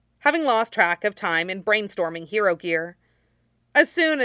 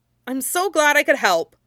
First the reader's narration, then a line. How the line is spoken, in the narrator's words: Midoriya exclaimed